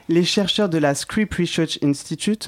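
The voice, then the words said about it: Put-on English accent. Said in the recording (French): “mon accent anglais de retour”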